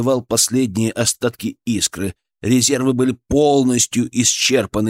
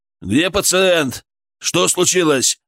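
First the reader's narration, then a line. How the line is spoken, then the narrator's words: Bellowing. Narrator (Russian): заорал старший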